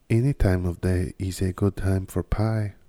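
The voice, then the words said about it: Unclear put-on accent. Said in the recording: “What is the fuck is that accent I was trying to do?”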